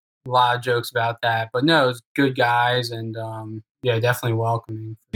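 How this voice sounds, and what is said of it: Strong American accent. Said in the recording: “I have a strong American accent”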